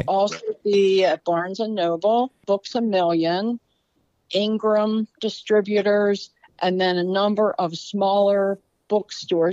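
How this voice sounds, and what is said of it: Baltimore accent. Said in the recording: “I got my Balmer accent.”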